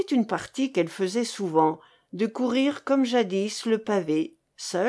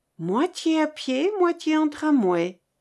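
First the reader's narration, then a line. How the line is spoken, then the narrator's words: Plain. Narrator (French): dit Jeanne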